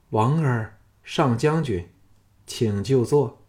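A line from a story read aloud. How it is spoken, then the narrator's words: Flat, indifferent. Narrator (Chinese): 朱姬淡淡的说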